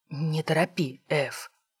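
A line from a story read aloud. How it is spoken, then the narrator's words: Whisper. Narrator (Russian): шепотом отозвался брат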